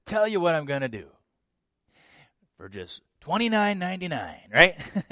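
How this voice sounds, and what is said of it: Pushy used car salesman voice. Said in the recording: “He sounds like a used car salesman at this point, doesn't he?”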